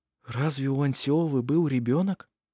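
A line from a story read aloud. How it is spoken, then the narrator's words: Whispered. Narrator (Russian): прошептал Петер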